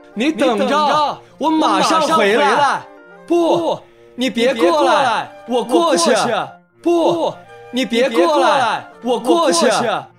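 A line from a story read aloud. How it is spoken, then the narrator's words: Loud. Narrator (Chinese): 阿卡大声说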